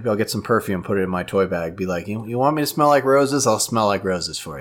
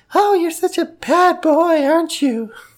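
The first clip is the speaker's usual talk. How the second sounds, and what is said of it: Put-on high-pitched voice. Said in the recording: “I'll talk in a high voice”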